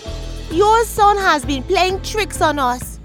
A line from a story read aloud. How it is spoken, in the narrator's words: said crossly